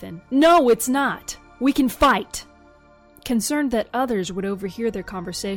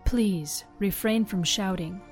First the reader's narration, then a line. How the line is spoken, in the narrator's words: she said, in a cool, authoritative tone